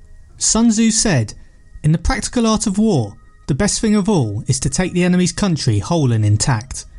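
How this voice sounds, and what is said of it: Goofy English accent. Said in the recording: “kind of a goofy English accent ... this goofy Brit uh, guy”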